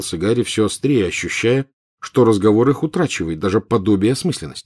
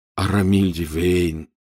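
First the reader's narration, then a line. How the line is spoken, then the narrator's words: Quiet. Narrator (Russian): негромко ответил Рон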